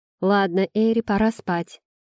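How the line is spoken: Stern, as to child. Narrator (Russian): строго как маленькой сказала Намия

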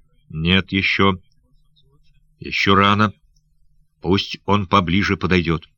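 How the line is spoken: Whispered. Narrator (Russian): прошептав

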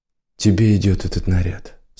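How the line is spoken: Calm. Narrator (Russian): спокойно сказал он

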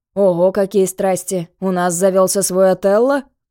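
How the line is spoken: Laughing. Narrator (Russian): засмеялся Тимур

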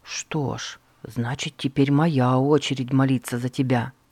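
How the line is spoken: Quiet. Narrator (Russian): тихо сказал Эрнест

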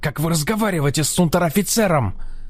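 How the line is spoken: Yelling. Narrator (Russian): орал Химмельштосс

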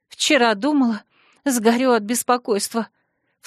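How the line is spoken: Guilty, after a last sob. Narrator (Russian): всхлипнув последний раз, виновато объявила она

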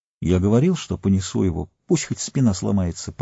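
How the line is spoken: Mutter. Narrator (Russian): пробормотал он

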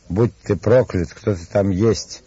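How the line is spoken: Angry exclamation. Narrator (Russian): воскликнул с озлоблением

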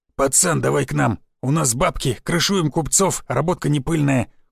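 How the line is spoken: Terse, forced out. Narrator (Russian): коротко выдавил Сиплый

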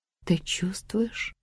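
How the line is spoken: Quiet question. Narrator (Russian): тихо спросила Джейн

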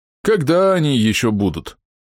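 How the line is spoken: Sighing. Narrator (Russian): вздохнул Орм Волчья Пасть

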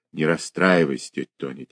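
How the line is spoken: Quiet. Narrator (Russian): тихо сказал Олег

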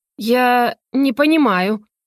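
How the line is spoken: Trembling voice. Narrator (Russian): дрожащим голосом начала Матвеева

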